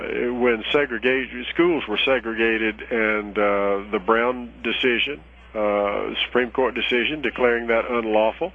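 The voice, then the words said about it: Southern American accent. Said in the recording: “as you can tell from my voice, I'm a Southerner”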